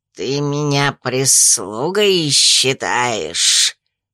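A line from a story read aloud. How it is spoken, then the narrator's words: Hissing. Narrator (Russian): прошипел он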